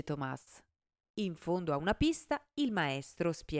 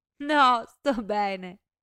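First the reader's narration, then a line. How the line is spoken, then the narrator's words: Laughing reply. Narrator (Italian): risponde ridendo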